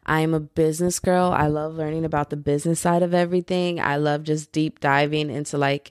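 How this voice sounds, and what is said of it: Usual voice. Nothing is said of it.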